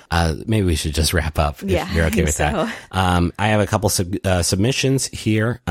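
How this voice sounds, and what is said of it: Strained, nearly gone voice. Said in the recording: “My voice is almost completely, ... almost completely done.”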